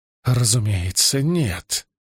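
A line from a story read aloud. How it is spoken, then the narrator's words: Strained furious female voice. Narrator (Russian): выдавила она голосом, звенящим от ярости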